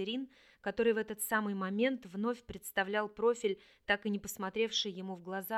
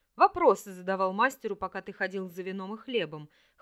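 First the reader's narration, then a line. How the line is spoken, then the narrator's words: Snorted. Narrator (Russian): хмыкнул Орлик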